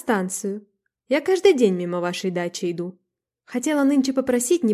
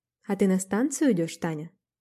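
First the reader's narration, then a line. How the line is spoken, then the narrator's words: Gentle question. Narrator (Russian): спросил он ласково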